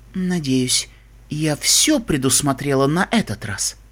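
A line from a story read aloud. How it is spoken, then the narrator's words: Quiet. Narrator (Russian): принцесса Селестия тихо произнесла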